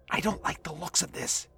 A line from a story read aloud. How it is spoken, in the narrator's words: he whispered